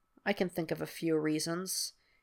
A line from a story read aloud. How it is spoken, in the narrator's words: he mutters